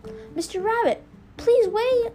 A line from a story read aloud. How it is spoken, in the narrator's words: She called out